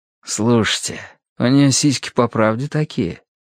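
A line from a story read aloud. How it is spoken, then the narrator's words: Whispered question. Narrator (Russian): шепотом спросил Хьюго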